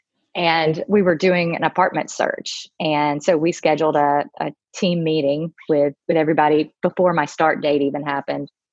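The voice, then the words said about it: Southern US accent, not New York. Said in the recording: “my husband and I were moving from Georgia up to New York City. You can probably tell from my accent, I'm not a native New Yorker.”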